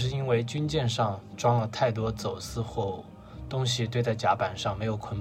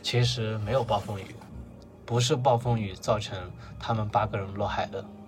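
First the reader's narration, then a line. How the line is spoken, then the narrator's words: Sighing. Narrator (Chinese): 那个水手叹了一口气，告诉马尔克斯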